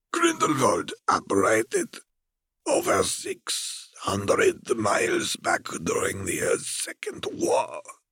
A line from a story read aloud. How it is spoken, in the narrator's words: Fer rasped